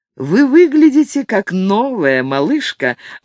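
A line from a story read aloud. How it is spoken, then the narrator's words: Joyful announcement. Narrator (Russian): радостно сообщил ей Ник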